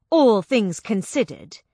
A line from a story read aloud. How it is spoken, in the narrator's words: I spat